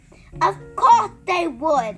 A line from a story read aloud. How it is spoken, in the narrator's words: the giant shouted